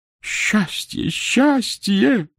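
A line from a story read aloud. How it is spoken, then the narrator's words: Sobbing repetition. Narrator (Russian): повторял Алексей Воинович, всхлипывая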